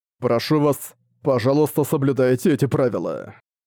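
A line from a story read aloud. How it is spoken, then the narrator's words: Serious tone. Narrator (Russian): страж могил серьезным тоном произнес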